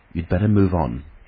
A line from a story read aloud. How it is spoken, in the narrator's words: said the mariner